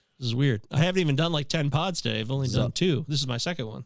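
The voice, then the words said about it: Strained, failing voice. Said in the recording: “my voice is really going here ... maybe I got some gross virus”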